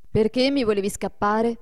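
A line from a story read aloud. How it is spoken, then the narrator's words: Reproachful question. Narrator (Italian): domandò Adolfo in tono di rimprovero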